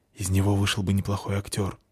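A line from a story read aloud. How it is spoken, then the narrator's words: Whisper. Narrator (Russian): шепнула Фаль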